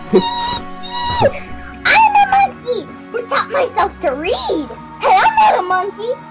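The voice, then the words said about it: Silly monkey character voice. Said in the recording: “my monkey voice”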